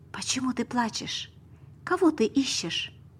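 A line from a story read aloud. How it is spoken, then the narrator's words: Soft, gentle. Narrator (Russian): сказал мягко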